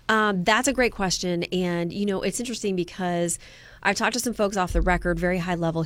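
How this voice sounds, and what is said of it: Sick-sounding voice. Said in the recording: “apologize for my voice. It has been a rough week, but I am fighting back against the germs.”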